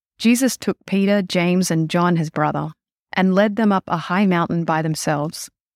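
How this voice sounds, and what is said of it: Australian accent. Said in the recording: “Now we're going to flip over to Australia.”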